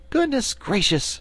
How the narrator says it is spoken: cried Dorothy

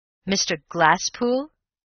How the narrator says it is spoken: exclaimed the lawyer

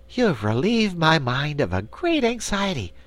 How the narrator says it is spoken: declared the Patchwork Girl, now speaking more cheerfully

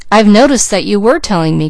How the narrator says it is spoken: cried Douglas

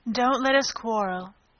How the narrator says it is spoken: the White Queen said in an anxious tone

